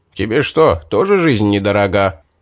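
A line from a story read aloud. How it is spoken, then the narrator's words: Grumbling. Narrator (Russian): проворчал маг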